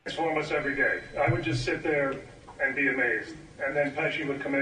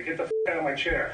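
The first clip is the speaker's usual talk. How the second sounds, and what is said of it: Joe Pesci impression. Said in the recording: “offering a impersonation of Joe Pesci”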